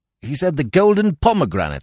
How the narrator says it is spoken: I replied, and laughed harshly

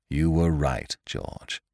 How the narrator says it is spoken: he said, and swore bitterly

